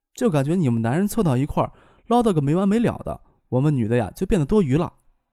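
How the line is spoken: Soft, coy voice. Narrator (Chinese): 听见他爸编排他，声音娇柔的说道

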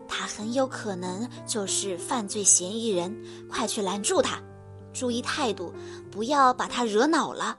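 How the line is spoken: Low voice. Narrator (Chinese): 黑猫警长 低声对白鸽侦探说

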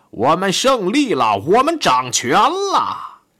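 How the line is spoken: Shouting. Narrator (Chinese): 库特，他朝一位友人喊道

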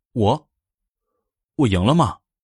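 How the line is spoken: Surprised, flat question. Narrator (Chinese): 小薇很吃惊，淡淡的问道

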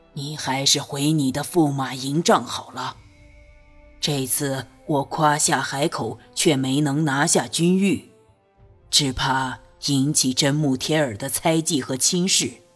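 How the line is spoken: Low voice. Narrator (Chinese): 低声道

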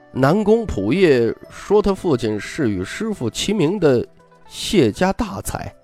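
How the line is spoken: Hearty laughter. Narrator (Chinese): 李义山哈哈大笑

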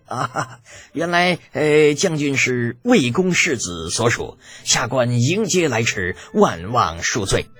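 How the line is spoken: Ingratiating smile. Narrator (Chinese): 陪笑着口中道

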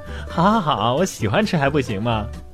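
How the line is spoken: Laughing. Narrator (Chinese): 笑着说

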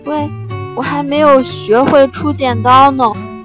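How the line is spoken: Loud shout. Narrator (Chinese): 大声地喊

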